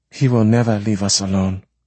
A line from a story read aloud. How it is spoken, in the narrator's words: Anyanwu said flatly